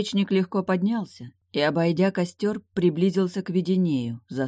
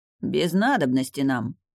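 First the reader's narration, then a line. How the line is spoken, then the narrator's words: Hoarse. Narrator (Russian): прохрипел Веденей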